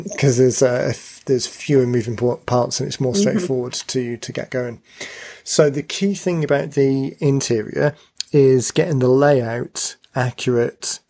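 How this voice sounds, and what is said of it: Slightly croaky, strained voice. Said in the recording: “my voice is going to give out because it's already going a little bit ... it starts getting a little bit croaky”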